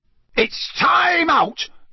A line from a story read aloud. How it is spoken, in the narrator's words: yelled Bagman's voice